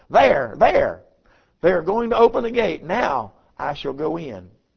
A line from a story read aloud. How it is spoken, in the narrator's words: she exclaimed